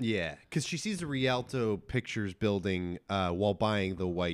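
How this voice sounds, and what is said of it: Usual voice. Nothing is said of it.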